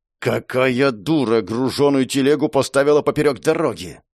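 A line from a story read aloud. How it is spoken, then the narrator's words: Hiss. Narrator (Russian): Зашипела она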